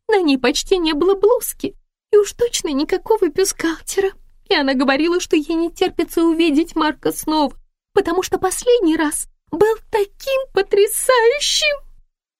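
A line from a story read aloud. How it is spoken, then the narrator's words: Holding back sobs. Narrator (Russian): подавила рыдание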